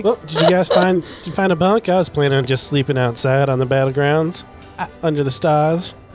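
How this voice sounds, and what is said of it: Bad put-on Southern gentleman accent. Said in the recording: “Southern plantation gentleman ... Your accent is my favorite ... So bad”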